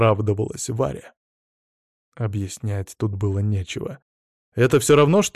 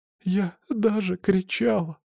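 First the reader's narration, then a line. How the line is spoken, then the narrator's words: Sobbing. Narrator (Russian): всхлипнула Варя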